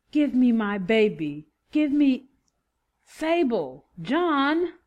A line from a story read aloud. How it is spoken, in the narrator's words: Rodney yelled